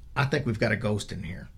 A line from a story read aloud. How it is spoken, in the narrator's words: Billy softly says